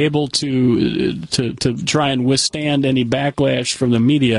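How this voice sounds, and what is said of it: Usual voice. Nothing is said of it.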